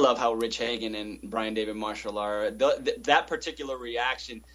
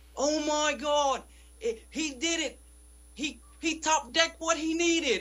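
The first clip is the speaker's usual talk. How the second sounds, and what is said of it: Poor attempt at English accent. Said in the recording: “that's not even close to an English accent... It sounds like Austin Powers.”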